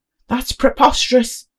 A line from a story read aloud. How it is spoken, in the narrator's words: shouted Cedric